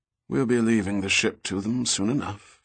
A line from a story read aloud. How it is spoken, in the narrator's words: Fitzjames replied in a tired voice